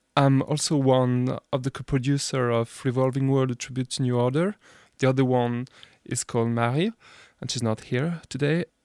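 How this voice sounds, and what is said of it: French accent in English. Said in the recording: “my awful French accent”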